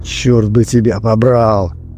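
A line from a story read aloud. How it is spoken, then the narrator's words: Whisper. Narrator (Russian): прошептал Давид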